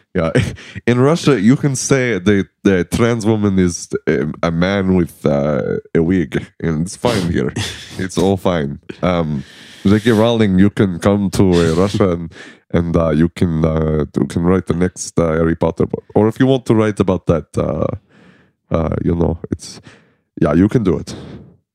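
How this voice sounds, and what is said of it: Imitates another person's voice. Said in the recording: “That was my Putin impression.”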